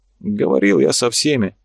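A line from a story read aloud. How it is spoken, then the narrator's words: Sighing. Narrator (Russian): Карабаев вздохнул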